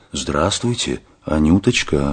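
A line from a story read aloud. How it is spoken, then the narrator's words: Throat-clearing, then quiet. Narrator (Russian): Мышлаевский откашлялся, тихо сказал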